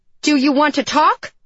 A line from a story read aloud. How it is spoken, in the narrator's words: I shouted at her